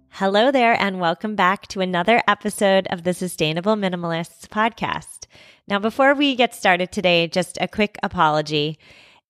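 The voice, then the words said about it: Gruff, scratchy voice from a cold. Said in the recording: “If I sound gruffer than usual, if my voice sounds a little bit scratchy, that's because I've been battling a cold for days now ... apologies for my scratchy voice”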